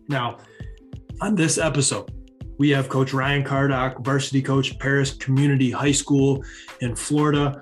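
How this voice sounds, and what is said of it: Stuffed-up, congested voice. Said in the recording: “if I sound a little stuffed up, if I sound a little worse than usual, it's true. I'm fighting getting back from a sinus infection right now. ... It's just my voice.”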